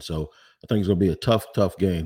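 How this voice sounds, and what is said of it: Sick, slightly altered voice. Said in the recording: “my voice is a little bit different. I'm dealing with some kind of bug ... I do have something in my mouth also to make me not cough”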